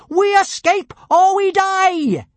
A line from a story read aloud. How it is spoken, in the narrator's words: she shouted with a mad gleam in her eye